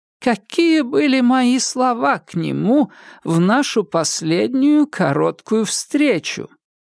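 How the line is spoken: Laughing. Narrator (Russian): Холмс рассмеялся

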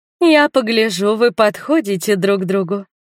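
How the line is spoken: Sarcastic woman. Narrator (Russian): язвительно сказала мне подошедшая незнакомка в желтом платье

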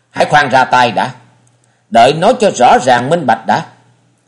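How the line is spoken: Loud shout. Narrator (Vietnamese): Chàng nhướng đôi ngươi lên rồi nhìn đạo trưởng quát lớn

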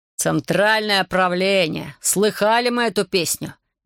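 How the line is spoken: Sarcastic shout. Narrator (Russian): язвительно крикнул Лайман

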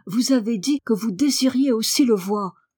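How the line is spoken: Exclaimed. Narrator (French): s'écria-t-il

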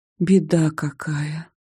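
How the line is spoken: Whispered. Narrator (Russian): прошептала я

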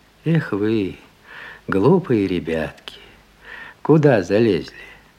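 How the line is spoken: Gentle, kindly man. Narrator (Russian): мужик ласково проговорил

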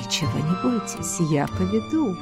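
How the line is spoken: Male whisper in ear. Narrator (Russian): мужчина шепнул на ухо

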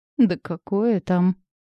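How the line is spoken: Strained, forced out. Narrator (Russian): выдавила из себя я

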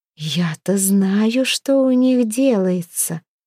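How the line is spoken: Insinuating drawl. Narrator (Russian): с намеком протянула Хёрдис

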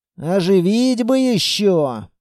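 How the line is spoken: Grumbling. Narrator (Russian): проворчал я

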